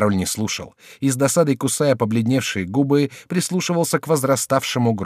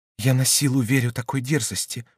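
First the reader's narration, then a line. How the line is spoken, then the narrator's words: Whispering. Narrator (Russian): прошептал он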